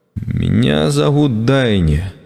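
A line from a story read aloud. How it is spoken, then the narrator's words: Uncertain, smiling. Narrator (Russian): сказала, неуверенно улыбаясь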